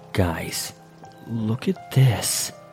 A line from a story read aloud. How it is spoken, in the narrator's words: Quietly, he whispers